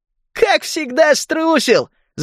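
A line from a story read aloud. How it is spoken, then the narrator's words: Laughing. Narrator (Russian): засмеялся Скегги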